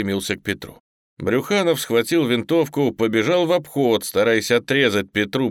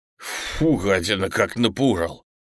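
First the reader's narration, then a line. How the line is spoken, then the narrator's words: Relieved sigh, angry yell. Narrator (Russian): Облегченно вздохнул Зубов и тут же зло заорал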